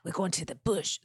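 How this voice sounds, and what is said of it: Put-on Australian accent. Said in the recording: “That Australian accent.”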